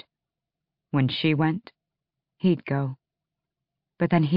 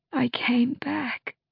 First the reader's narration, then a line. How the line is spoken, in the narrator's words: she rasped